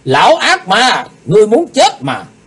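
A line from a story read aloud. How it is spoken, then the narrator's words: Loud yell. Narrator (Vietnamese): Lạc Bá Đào hét lớn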